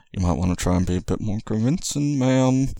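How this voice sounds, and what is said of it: Hushed, low voice. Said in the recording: “in a sotto voice.”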